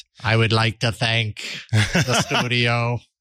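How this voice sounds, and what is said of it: Stereotypical robot voice. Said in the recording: “my horrible, stereotypical robot impersonation”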